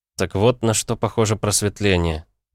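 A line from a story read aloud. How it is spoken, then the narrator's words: Said quietly. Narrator (Russian): тихо сказал я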